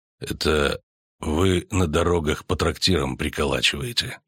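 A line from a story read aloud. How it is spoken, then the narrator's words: Quiet. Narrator (Russian): сказал он тихо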